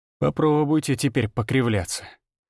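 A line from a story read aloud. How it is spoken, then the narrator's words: Mutter while spitting blood. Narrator (Russian): пробормотал я, сплёвывая кровь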